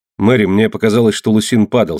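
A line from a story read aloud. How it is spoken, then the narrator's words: Plain. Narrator (Russian): сказал я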